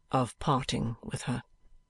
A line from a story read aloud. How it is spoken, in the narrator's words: observes my lady from her window in a low but decided tone